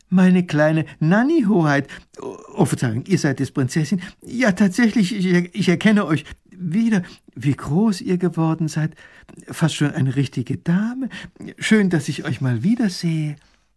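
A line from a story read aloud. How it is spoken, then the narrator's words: Suddenly friendlier call. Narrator (German): Seine Stimme ist auf einmal ganz anders und viel freundlicher, als er ruft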